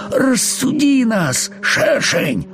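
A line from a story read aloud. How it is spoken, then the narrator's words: Pleading, small voice. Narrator (Russian): взмолился муравьишка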